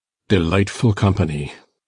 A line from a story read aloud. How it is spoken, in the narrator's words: muttered Heathcliff